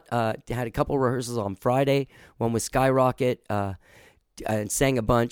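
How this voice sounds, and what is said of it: Hoarse voice. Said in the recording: “I'm kind of hoarse for it. I'm hoarse because I've been rehearsing a lot. ... I've just been hoarse ever since.”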